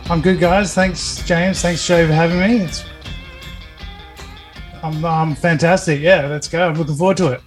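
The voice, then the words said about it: Australian accent. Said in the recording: “What's this accent? ... I'm from Australia. So, yeah, I'm in Perth.”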